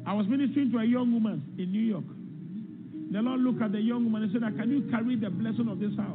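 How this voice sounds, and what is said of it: Strong accent, hard to understand. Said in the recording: “He's a little hard to understand, but we'll try to get through the accent.”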